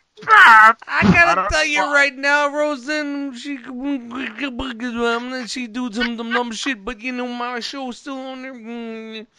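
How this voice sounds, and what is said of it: Poor imitation of another person's voice. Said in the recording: “That's a really bad Bill Cosby impersonation.”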